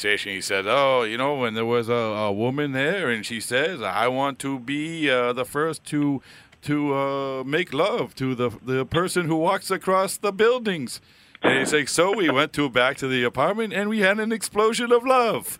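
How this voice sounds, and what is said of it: Bad put-on French accent. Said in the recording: “I'm going to do a bad French accent.”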